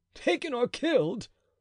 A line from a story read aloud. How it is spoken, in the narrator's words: cried he